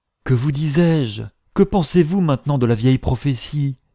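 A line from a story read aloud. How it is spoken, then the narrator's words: Exclaimed. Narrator (French): s'écria-t-il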